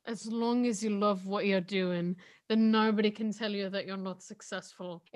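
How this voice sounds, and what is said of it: Imitates another person's voice, rolled ending. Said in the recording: “you put so much rolling of your tongue at the end of that ... your impression of Harry Styles”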